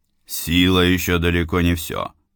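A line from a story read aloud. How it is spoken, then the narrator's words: Grumbling mutter. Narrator (Russian): буркнуло некогда величайшее по силе существо во всей сфере миров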